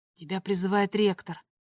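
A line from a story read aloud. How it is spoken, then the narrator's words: Whispered. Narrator (Russian): шепнул он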